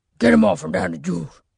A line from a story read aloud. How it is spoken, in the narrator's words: growled, the space between the words as slender